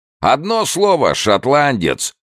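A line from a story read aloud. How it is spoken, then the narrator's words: Yelling, booming laughter. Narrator (Russian): вопил Уокер и гулко хохотал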